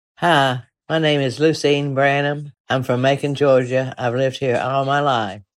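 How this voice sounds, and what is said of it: Southern drawl accent. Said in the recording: “she has a pretty representative version of the famous Southern drawl”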